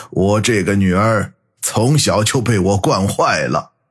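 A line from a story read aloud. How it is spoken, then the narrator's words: Wry, rueful. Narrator (Chinese): 八爷才苦笑的摇摇头，说道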